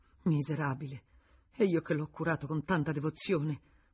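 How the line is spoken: Sobbing woman. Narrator (Italian): Era scoppiata in singhiozzi

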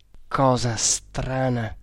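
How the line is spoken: Unfriendly grumbling. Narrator (Italian): si mise a brontolare in modo tutt'altro che amichevole

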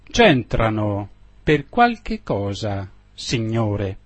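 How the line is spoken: Plain. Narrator (Italian): rispose il mastro

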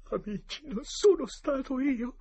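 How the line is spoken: Sobbing. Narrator (Italian): disse tra i singhiozzi

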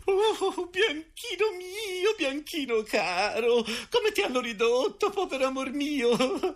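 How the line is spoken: Trembling moaning lament. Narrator (Italian): tremando come una foglia e gemendo

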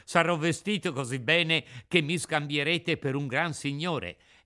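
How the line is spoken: Laughing. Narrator (Italian): soggiunse ridendo

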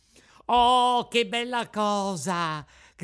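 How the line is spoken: Shouting with joy. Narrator (Italian): gridò Pinocchio ballando dall'allegrezza

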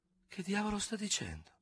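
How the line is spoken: Faint murmur. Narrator (Italian): mormorò con un filo di voce

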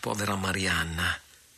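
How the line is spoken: Pained murmur. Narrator (Italian): mormorò comprimendosi il petto

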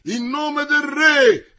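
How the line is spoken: Shouting. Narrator (Italian): gridava Comminges

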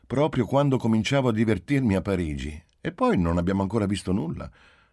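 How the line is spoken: Good-natured, resigned tone. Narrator (Italian): disse Giulia in tono bonario e già rassegnato

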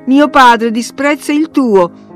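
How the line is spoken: Shouted. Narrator (Italian): gridò Linton

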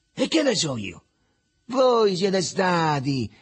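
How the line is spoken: Spiteful triumphant exclamation. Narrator (Italian): esclamò perfido e trionfante il Riccetto

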